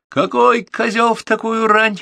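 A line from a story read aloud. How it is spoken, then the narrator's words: Sarcastic cheerful shout on phone. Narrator (Russian): радостно выкрикнул в трубку, давая понять, что он чрезвычайно устал от всякого рода звонков, тем более ранних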